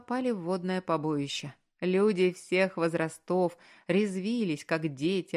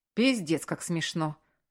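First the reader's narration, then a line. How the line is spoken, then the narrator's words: Ironic remark. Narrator (Russian): сиронизировал Маркус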